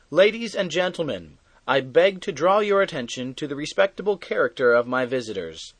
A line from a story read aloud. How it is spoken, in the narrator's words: he called out